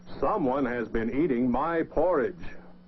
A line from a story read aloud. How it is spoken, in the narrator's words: Papa Bear said in his big voice